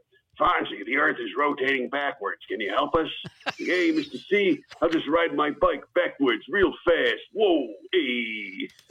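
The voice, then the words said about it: Impressions of Mr. C and Fonzie. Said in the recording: “That's a great impression of both of them”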